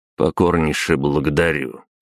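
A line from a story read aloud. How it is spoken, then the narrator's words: Cold. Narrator (Russian): холодно кивнул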